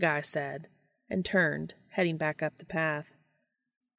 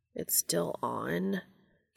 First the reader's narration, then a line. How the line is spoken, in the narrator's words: Cass asked quietly, incredulously